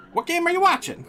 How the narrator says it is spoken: Arnie snapped

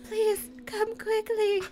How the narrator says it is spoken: she pleaded

